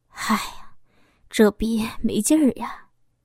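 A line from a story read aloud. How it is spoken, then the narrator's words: Sighing mutter. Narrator (Chinese): 老公一声叹息，嘴里嘟囔着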